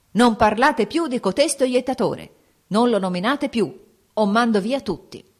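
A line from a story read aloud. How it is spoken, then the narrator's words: Angry shout. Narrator (Italian): il principe gridò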